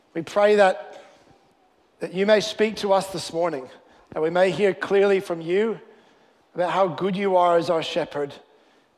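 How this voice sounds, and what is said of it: Hybrid Canadian-Australian accent. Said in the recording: “I was born in Canada, but I've lived here for a long time, and so I have this weird sort of hybrid accent ... I've heard all kinds of guesses, Irish, English, everything, but I'm Canadian, but Australian.”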